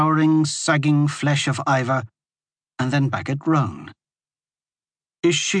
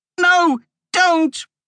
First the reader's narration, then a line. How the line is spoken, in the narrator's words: Roan shrieked so loudly that it scared both of them